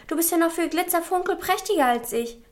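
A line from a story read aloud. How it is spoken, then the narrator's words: Calling out. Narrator (German): rief er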